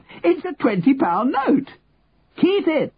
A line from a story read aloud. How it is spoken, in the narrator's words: Henry shouted at him